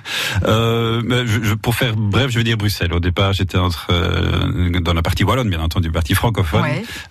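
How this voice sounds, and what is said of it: Slight Belgian French accent. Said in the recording (French): “vous avez un petit accent ... on, découvre souvent que je viens de Belgique”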